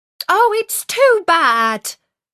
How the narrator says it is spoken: she cried

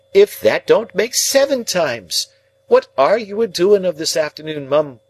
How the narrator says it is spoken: she cried

